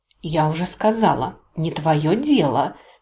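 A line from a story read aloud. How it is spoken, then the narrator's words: Hiss. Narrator (Russian): прошипела я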